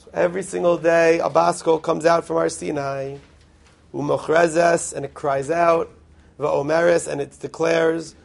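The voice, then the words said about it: Raspy voice. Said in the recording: “I apologize for my raspy voice”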